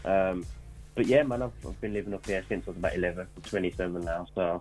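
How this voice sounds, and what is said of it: Birmingham accent, no London accent. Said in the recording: “the accent's just taken over now. The accent's just kind of taken over. All the London accent is completely gone.”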